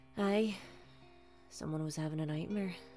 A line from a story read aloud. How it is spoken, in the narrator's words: Day sighed